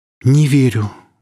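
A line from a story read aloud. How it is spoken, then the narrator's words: Breathless exhale. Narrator (Russian): выдохнула Оля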